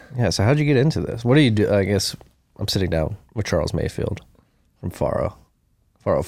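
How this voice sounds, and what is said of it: Northeastern US accent. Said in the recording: “It's the Northeast accent coming out.”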